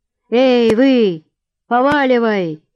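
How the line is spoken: Loud bark. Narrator (Russian): гаркнул

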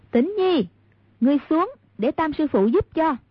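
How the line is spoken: Calling out. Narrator (Vietnamese): Hàn Tiểu Quanh kêu lên

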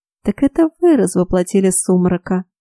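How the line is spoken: Almost purring. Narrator (Russian): Почти промурлыкала она

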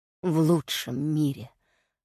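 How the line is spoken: Dying king's rasp. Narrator (Russian): прохрипел король, до последнего вздоха

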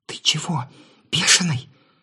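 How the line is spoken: Muffled whisper. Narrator (Russian): раздался приглушенный шепот

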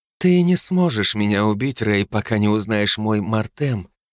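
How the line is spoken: Whisper. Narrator (Russian): прошептала она

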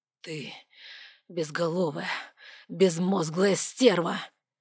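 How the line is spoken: Growled. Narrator (Russian): прорычал мужчина

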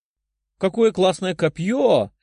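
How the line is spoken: Excited exclamation. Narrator (Russian): воскликнула Лиза

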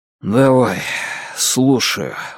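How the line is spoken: Exhaling. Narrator (Russian): выдохнул

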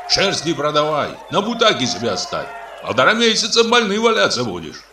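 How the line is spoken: Shouting. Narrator (Russian): кричал Дмитрий

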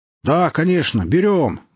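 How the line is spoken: Barked. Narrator (Russian): гаркнул кто-то

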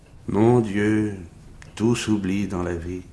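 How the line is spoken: Sigh. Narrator (French): soupira-t-elle

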